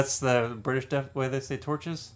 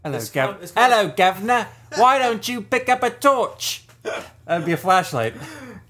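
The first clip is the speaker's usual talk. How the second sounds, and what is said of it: Put-on English accent. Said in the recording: “I got to get my English accent.”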